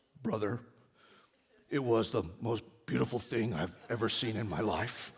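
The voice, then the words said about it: Imitates another person's voice. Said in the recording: “that was my Jeremiah impersonation”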